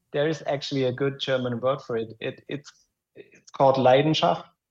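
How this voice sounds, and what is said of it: German accent. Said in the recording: “my German accent... That's freaking awesome accent.”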